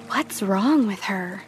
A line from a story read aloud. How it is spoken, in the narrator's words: She heard them whispering